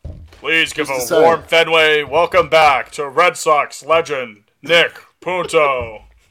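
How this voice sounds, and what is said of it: Impression of Fenway PA announcer. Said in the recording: “That was actually a really good impression”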